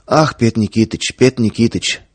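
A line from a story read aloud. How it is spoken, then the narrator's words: Rapid lisping chatter. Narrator (Russian): скороговоркой, слегка пришептывая, затараторил торговец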